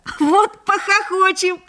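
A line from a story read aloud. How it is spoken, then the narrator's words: Laughing. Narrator (Russian): засмеялся Лёшка Хвальба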